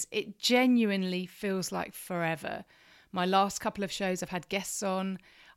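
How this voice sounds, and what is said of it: Smiling, cheerful voice. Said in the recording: “hear the smile in my voice”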